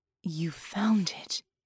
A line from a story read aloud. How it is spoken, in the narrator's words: breathed